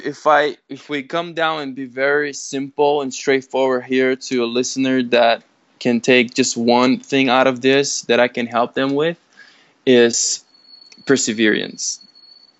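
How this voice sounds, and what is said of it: Non-native English accent. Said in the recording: “you're probably going to notice a little bit of my accent there because it's a hard word for me to pronounce in English”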